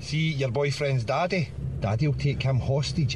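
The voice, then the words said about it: Speaks with a noticeable accent. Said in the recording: “That's a good accent.”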